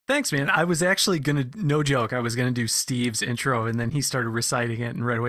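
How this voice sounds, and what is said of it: Usual voice. Nothing is said of it.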